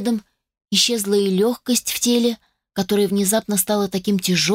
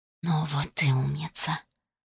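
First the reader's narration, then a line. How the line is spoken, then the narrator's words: Close, familiar whisper. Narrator (Russian): прошептал совсем рядом такой родной и близкий голос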